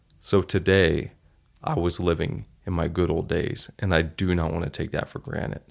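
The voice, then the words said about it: Emotional, teary voice. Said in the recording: “you can hear that in my voice. It makes me tear up”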